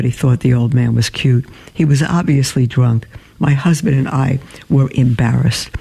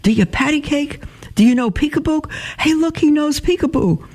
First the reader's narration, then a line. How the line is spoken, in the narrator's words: the man began shouting from across the room